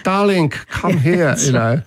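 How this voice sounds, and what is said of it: Put-on Eastern European accent. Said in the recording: “if you're doing an Eastern European accent”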